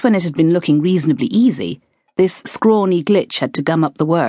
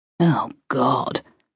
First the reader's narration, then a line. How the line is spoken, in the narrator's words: Thea groaned inwardly